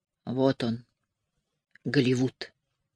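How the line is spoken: Mutter. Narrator (Russian): опять пробормотала

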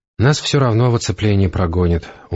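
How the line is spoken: Glum objection. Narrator (Russian): уныло возразил прорицатель

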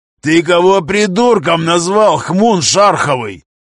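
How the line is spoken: Roared. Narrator (Russian): взревел Гремила

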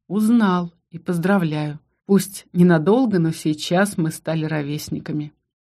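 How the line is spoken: Sigh. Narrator (Russian): Вздохнула

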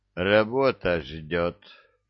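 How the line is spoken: Lazy offhand remark. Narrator (Russian): лениво бросил сержант

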